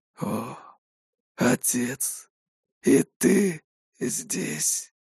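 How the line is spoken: Breathless exhale. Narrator (Russian): выдохнул Вениамин

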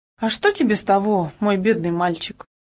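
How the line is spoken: Sad reply. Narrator (Russian): грустно отозвался

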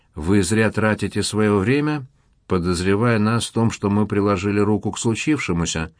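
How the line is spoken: Gloomy, somber. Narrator (Russian): мрачно промолвил Багратионов

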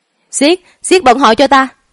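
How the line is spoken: Startled loud shout. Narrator (Vietnamese): Là Cầm giật mình một cái, mở to hai mắt, hét lớn

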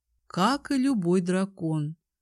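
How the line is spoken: Dull, muffled voice. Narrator (Russian): глухо проговорила я

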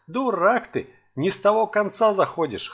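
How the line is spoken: Chuckling old man. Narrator (Russian): хохотнул дед

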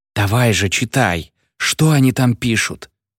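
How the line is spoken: Excited whisper. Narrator (Russian): раздается взволнованный шепот Леона

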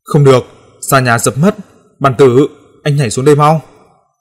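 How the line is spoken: Hurried loud shout. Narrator (Vietnamese): tôi vội hét to

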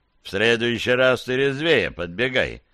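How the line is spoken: Grumbled. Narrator (Russian): пробурчал Сивый

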